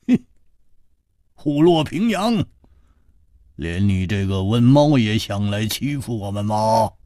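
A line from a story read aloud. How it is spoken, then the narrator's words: Laughing, scolding. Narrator (Chinese): 胡铁花笑骂道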